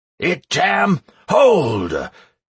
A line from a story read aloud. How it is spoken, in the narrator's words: shouted Do Not Panic, running up